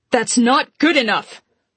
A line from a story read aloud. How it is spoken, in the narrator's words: Tilda barked